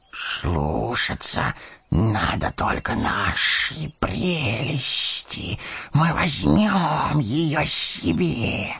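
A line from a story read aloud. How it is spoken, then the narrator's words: Wheezing hiss. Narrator (Russian): сипел голос Горлума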